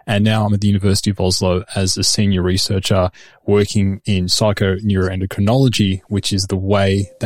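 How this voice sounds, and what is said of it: Australian accent. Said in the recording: “as you can probably tell from my accent, I'm not Norwegian. I've come via Sydney, where I grew up.”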